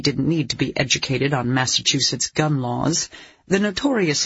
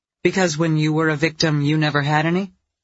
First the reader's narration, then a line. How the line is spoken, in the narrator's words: Dee Dee asked dryly